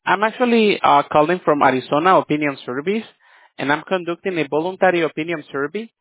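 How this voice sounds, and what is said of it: Slow, unclear accented English. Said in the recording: “You're not speaking clear English. Your accent is slow, just not making things clear.”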